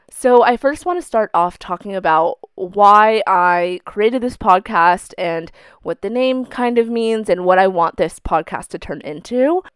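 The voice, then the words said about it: Sick, rough-sounding voice. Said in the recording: “I have the flu currently ... why my voice sounds horrible right now ... putting the sickness aside, hopefully my voice is somewhat decent and is bearable to listen to”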